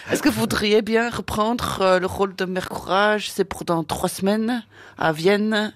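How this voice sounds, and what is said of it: Deliberately bad put-on accent. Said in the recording (French): “Je prends un accent pourri, excusez-moi, mais c'est juste pour faire rigoler.”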